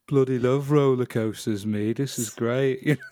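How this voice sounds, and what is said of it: Put-on Birmingham accent, glum-sounding. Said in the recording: “I just don't like the Birmingham accent. It feels like no matter what you say, you sound like you are having the worst day of your life.”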